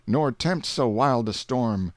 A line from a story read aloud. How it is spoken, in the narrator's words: the captain cried